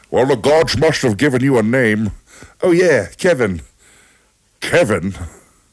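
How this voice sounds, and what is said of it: Sean Connery impression. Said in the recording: “do it in Sean Connery's accent”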